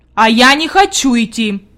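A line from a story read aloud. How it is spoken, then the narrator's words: Sharp reply. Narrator (Russian): резко ответил он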